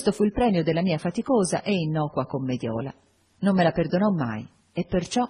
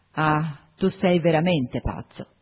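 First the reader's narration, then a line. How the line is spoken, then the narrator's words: Exclaimed grieving, tearful. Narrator (Italian): Con accento accorato e con le lacrime agli occhi esclamò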